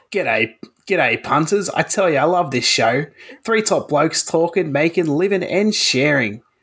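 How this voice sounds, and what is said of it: Exaggerated Australian bogan accent. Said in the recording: “put on an accent ... slightly more bogan ... Aussie bogan”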